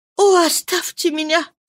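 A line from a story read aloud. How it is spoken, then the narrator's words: Weak moan. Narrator (Russian): слабо простонала она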